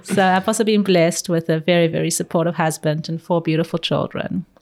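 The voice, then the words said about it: Distinct, soothing South African accent. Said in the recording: “my accent is very distinct, and it's a very South African accent... It's very in... soothing though”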